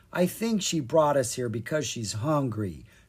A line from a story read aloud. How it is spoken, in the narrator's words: Kara said with a sigh